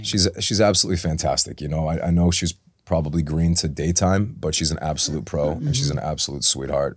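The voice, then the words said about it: Speaks with an unusual accent. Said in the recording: “I got a weird accent.”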